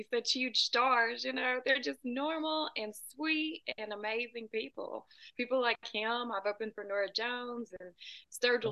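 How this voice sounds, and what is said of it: Southern US accent. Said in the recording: “that accent sounds like Nashville ... a little more south than that. I'm about two hours south of Nashville ... Sometimes when people hear my accent, they say Texas”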